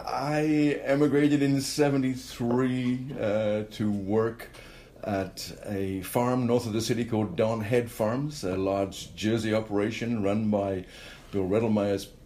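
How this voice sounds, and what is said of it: Non-Canadian foreign accent. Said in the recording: “you have a bit of an accent. Well, we Canadians think you have a bit of an accent.”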